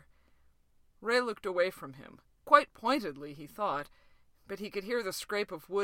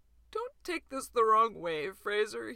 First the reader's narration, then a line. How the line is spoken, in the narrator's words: he said, his voice sounding cracked and wet